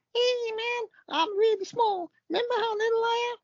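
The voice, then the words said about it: Squeaky Verne Troyer impression. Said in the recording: “here's the ghost of Vern Troyer... He had a squeaky voice... Pretty good Van Troy impression.”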